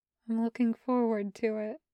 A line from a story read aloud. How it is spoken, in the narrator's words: Kravitz says softly